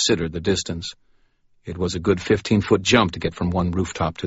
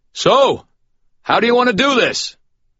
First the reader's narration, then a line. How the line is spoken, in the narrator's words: I raised my voice and bellowed